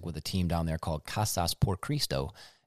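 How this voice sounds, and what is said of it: Poor Spanish pronunciation, American accent. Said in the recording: “how bad my accent just was”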